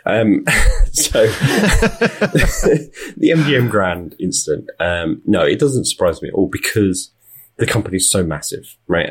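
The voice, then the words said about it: British accent. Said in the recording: “I am British. You can tell from my accent”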